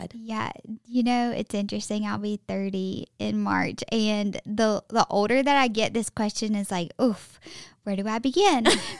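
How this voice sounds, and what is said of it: Strong Southern American accent. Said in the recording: “the best Southern accent I've ever heard in my life”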